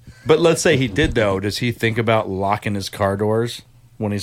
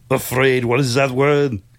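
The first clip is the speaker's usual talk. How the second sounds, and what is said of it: Imitates another person's accented voice. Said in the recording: “I got to find a line to find his accent.”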